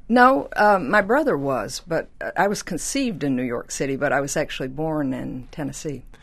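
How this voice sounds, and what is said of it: Southern American accent. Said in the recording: “that accent is obviously Southern of sorts”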